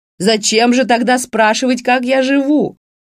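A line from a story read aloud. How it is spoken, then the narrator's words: Shouting after someone. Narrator (Russian): крикнула ему вслед Раневская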